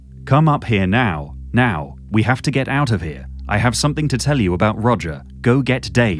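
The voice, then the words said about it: Robotic text-message voice. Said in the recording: “do your text voice? ... I had a sort of robotic text voice.”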